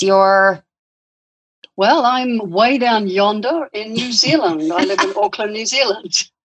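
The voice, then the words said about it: New Zealand accent. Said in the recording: “I love the accent.”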